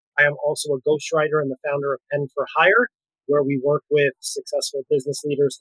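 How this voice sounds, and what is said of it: Bronx accent. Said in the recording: “his fabulous Bronx accent”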